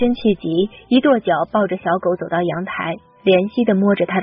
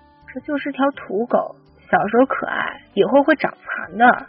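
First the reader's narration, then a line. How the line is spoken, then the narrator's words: Quiet muttering. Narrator (Chinese): 有人小声嘀咕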